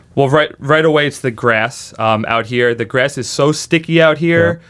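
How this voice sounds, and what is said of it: American Northeastern accent. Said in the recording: “You're from the Northeast. ... We can tell by the accent.”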